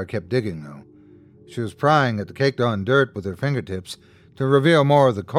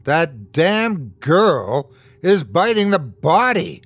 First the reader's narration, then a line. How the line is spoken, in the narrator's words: screamed in pure revulsion